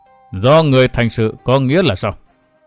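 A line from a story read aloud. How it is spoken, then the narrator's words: Old man, colder voice. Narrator (Vietnamese): Lão biến sắc, giọng nói trở nên lạnh lùng hơn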